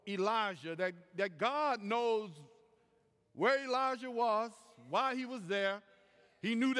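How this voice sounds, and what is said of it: Usual voice. Nothing is said of it.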